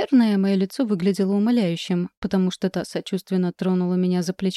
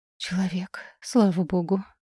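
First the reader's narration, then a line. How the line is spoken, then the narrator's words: Relieved exhale. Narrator (Russian): выдохнула я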